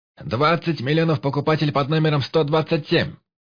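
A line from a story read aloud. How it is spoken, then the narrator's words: Loud shout. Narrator (Russian): Громко выкрикнул он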